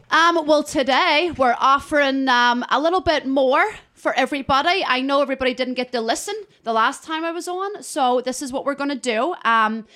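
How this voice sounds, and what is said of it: Brogue accent. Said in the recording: “Love the brogue”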